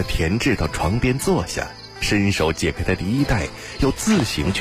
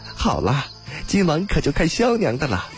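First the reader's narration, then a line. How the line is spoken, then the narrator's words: Laughing. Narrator (Chinese): 阿锦笑道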